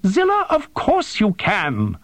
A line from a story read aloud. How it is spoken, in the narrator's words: Tersono yelped